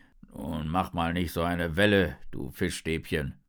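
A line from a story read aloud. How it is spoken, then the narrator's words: Turtle grumbling. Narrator (German): brummt die Schildkröte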